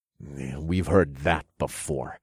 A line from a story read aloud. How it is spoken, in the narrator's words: I muttered as my blood boiled with rage